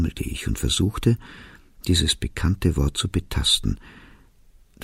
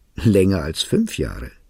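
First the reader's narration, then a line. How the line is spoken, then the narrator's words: Speech with loud laughter. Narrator (German): sagte sie und lachte schallend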